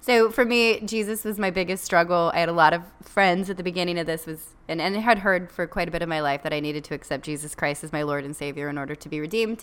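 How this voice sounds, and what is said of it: Speaking very fast. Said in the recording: “I'm going to try and say it really fast.”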